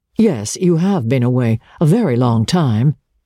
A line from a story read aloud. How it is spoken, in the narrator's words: he answered somewhat stiffly